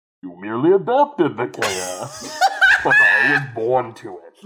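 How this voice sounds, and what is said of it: Imitates Bane's muffled villain voice. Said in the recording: “anyone can do a Bane ... it's a Bane ... Except that was still too intelligible ... I got to aspirate into the mic a little bit”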